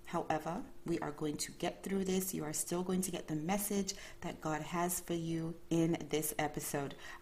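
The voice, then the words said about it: Calmer, slightly off early-morning voice. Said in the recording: “my voice might sound a little bit different. Maybe my tone is a little bit more calm ... trying to warm up my vocal cords ... my voice sounds a bit off”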